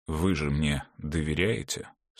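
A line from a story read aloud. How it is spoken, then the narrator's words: Tired. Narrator (Russian): сказал он устало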